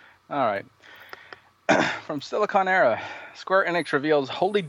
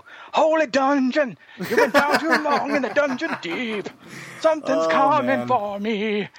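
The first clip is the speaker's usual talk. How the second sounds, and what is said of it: Bad sung rock-singer impression. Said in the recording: “That was the worst deal impression I have ever heard. ... it's the worst rendition of that song.”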